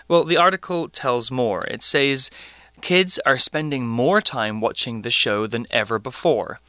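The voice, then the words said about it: British English accent. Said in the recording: “British English, which is kind of what I speak”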